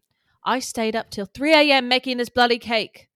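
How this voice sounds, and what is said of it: Badly done put-on accent. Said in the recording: “the worst accent I've ever done. My accents have gotten so bad”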